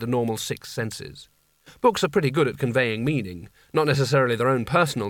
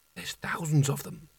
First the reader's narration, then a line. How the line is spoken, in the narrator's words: whispered, his voice being sucked away and silenced by the massed ranks of books